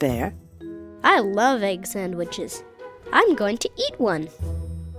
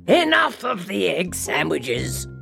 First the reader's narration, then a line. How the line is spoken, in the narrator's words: roared the bear